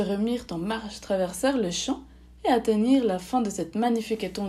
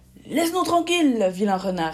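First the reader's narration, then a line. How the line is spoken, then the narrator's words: Fierce shout. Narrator (French): cria avec férocité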